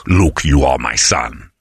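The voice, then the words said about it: Poor Darth Vader impression. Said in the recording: “Darth Vader, you were even doing the impersonation ... Apparently it's bad ... Apparently it's garbage ... I think you're doing Henry Kissinger ... It's Kissinger again”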